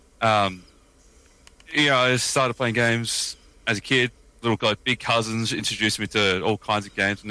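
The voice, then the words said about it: Australian accent. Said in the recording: “I don't know if we talk about the accent, I'm Australian.”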